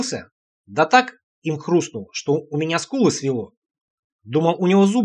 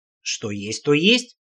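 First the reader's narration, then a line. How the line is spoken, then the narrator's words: Calm agreement. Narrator (Russian): спокойно согласился Олег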